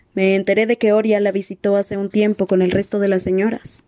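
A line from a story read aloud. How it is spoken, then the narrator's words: Plain. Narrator (Spanish): le dijo Wenpu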